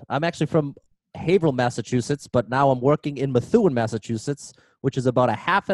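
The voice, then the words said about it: Regional Massachusetts accent. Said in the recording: “We can tell by your accent where you're from.”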